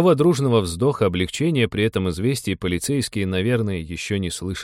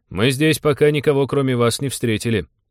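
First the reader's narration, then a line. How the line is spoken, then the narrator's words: Brisk, suppressing nervous giggles. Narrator (Russian): бодро отрапортовал Станислав, стараясь не сорваться на нервное подхихикивание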